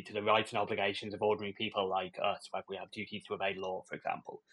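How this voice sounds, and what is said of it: Non-American English accent. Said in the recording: “Judging by your accent, you are not from the United States. That's not a Kentucky accent”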